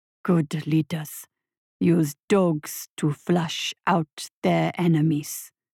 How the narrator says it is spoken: rumbled his invisible advisor

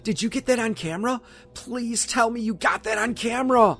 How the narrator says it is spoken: Dennis exclaimed

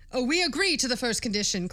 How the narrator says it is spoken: cried the people with one voice

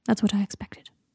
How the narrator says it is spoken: said quietly

